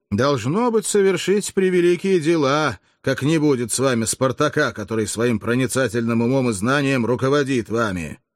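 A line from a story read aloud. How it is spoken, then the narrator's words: Mocking remark. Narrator (Russian): насмешливо заметил Барториджи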